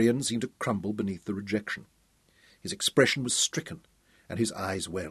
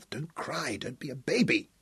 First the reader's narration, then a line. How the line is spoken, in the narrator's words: Tom whispered out of the side of his mouth